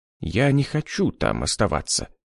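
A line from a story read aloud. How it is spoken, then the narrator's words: Quiet mumble. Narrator (Russian): тихо пробормотал профессор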